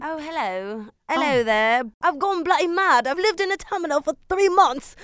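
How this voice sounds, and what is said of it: Put-on British accent. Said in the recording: “you bust out like your UK accent ... Exactly like that.”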